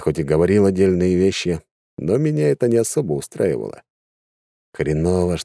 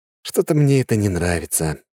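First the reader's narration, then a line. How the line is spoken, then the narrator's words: Sigh. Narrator (Russian): вздохнул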